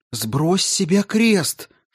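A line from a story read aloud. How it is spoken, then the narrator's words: Pale, frightened whisper. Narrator (Russian): шепнула побледневшая Амена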